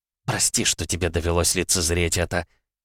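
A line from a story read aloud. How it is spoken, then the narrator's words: Breathless witch's mutter. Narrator (Russian): пробормотала ведьма, стараясь привести дыхание в норму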